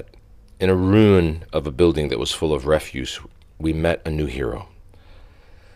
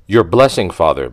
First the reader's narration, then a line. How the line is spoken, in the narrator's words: said cheerfully